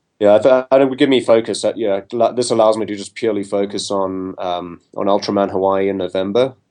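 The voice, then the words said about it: South African accent. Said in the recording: “you've got a distinctive accent, but it's not from one specific place ... my accent always confuses people. It's depending on where I am, they either think I'm Australian or British or a Kiwi, but I'm actually a South African.”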